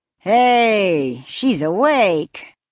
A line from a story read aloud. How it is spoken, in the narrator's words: drawled the caretaker